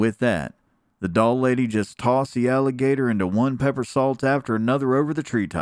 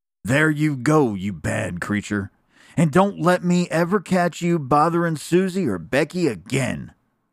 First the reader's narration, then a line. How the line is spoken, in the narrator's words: the doll lady cried